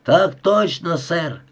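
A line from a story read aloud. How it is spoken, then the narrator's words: Hundred voices barking. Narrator (Russian): рявкнули 100 голосов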